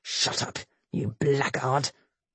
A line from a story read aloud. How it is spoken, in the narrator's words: he snarled quietly